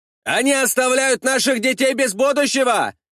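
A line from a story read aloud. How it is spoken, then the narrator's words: Many soldiers shouting. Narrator (Russian): закричала часть бойцов десятника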